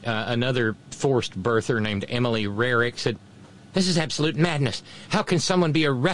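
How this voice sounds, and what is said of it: Usual voice. Nothing is said of it.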